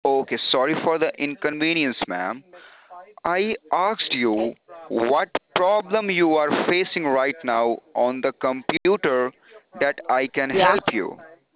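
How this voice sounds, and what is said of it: Heavy accent, hard to understand. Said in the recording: “Your accent, I'm just having a real hard time understanding you with your accent.”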